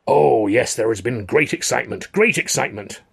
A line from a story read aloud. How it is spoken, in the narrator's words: little theatre manager cried over his shoulder